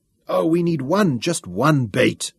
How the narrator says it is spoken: Shaza groaned

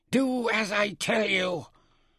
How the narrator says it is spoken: Mintaka snarled like a leopardess

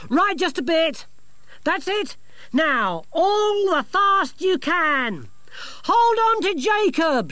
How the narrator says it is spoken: she shouted to Dorcas as the engine noise grew

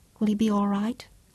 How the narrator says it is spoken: Claudia asked softly

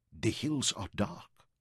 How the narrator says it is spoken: she whispered

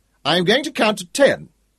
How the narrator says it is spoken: he shouted, as he had when she was just a shrimp

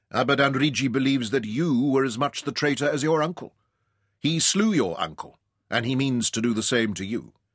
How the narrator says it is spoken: Ryder told him grimly

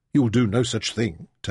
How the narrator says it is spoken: Taita told him firmly

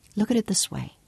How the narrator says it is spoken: she reasoned calmly

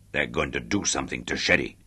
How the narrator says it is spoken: muttered Chubby

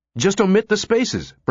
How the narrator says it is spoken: Brinkerhoff cried

